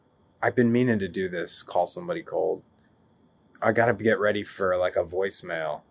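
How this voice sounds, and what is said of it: Usual voice. Nothing is said of it.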